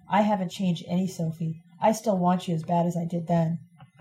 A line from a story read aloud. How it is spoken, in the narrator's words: Tissy whispered